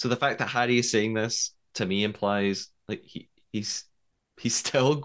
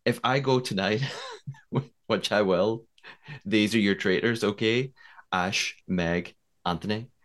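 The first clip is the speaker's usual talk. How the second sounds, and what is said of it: Attempted Northern Irish accent. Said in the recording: “should I do this like Northern Irish accent and offend lots of people? I'll give it a go ... I'm working on it”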